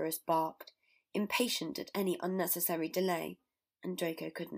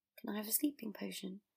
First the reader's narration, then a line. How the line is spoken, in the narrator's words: He asked meekly